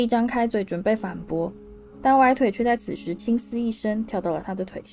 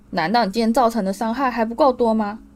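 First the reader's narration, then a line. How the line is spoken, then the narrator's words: Angry. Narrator (Chinese): 荣恩愤怒地说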